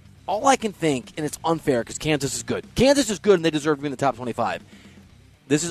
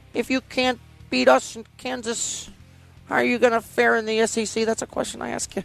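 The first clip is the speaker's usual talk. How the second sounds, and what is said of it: Imitates another person's voice. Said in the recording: “I'm going to say it as Mark Mangino, who's probably somewhere bitter ... It's a good imitation ... keep doing the voices”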